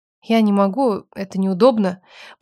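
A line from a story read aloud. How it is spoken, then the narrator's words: Mumbling. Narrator (Russian): промямлила я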